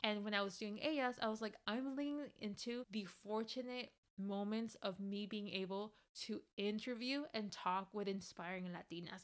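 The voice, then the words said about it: Speaks English with an accent. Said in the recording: “I have an accent when I'm talking in English”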